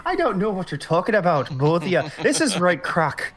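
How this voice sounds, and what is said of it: Put-on Scottish accent, sounds Irish. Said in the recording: “His Scottish one is worse because he thinks it's Scottish, but it's Irish... This is my Scottish accent”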